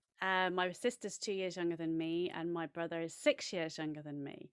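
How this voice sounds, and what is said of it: English accent. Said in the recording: “you can maybe tell from my accent, I have an English accent, and I grew up in central England”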